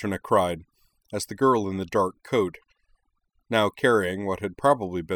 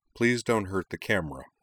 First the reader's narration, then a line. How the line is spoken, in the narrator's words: Corwin added dryly